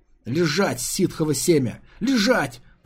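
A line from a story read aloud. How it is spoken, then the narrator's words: Hissed into ear. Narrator (Russian): прошипел ему в ухо Антилас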